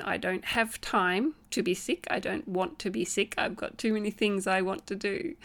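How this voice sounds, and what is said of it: Croaky, sniffly voice from cold. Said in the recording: “hear it in my voice, ... a little croaky and a little sniffly today”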